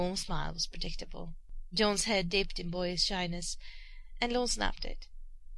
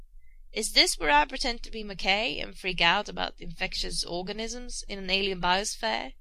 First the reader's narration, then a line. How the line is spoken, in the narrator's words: he said dryly